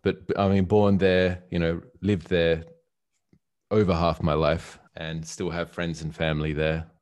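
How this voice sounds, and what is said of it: Australian accent. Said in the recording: “that's where my accent's from for the most part”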